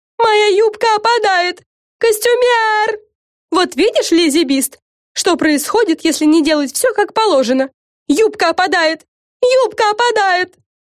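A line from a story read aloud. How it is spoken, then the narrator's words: Fairy's shriek. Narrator (Russian): визжала фея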